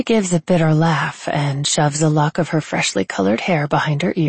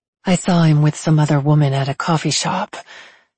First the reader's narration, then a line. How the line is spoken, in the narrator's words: says with a sigh